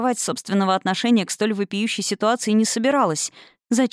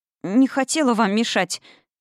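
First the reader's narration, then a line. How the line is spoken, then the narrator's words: Girl babbling. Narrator (Russian): залепетала девица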